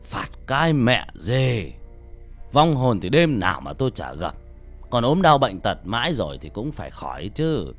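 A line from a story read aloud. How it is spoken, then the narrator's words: Scoffing old man. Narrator (Vietnamese): Ông lão cười khẩy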